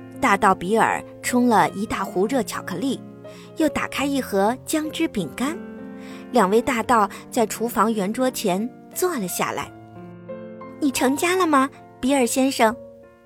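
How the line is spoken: Plain question. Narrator (Chinese): 大道贝蒂问

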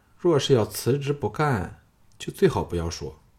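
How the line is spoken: Cool, indifferent. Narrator (Chinese): 凤飞淡淡的说

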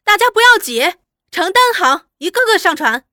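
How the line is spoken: Shrieking. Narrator (Chinese): 阿玉尖叫着

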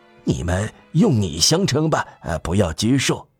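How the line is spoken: Low voice. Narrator (Chinese): 低声对他们说

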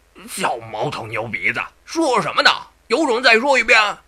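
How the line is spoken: Defiant cursing boy. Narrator (Chinese): 那道童却也硬气，继续骂不绝口

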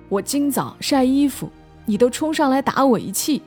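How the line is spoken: Shouting. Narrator (Chinese): 姑姑……喊

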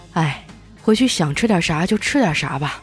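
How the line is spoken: Sighing old doctor. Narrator (Chinese): 这老中医叹了口气说

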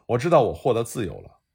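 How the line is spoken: Loud exultant shout. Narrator (Chinese): 一个黑人高喊道

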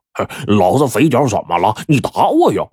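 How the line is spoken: Loud mocking laughter. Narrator (Chinese): 肥仔就哈哈大笑说

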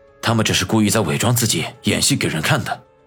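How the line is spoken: Low, deep voice. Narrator (Chinese): 常青山沉声说道

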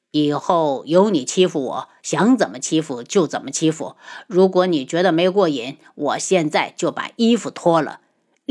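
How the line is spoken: Low chuckle. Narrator (Chinese): 他低笑出声

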